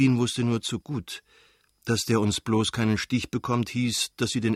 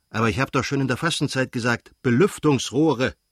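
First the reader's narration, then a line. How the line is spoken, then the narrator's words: Called out. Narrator (German): rief er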